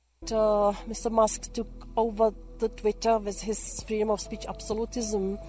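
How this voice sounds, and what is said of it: Strong foreign accent. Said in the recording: “There's a strong accent there”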